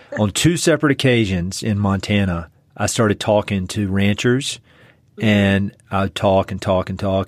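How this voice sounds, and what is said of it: Eastern North Carolina accent. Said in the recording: “my Eastern North Carolina accent still has some Scottish in it”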